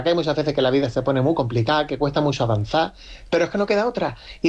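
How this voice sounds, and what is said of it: Cádiz Andalusian Spanish accent. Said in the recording (Spanish): “Yo tengo acento de Cádiz”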